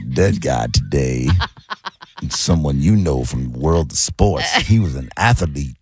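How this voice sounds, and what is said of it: Put-on smooth brother voice. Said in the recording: “the accent thingy ... I sound like a smooth brother ... You sound like you're trying to sound like a smooth brother ... I like the voice”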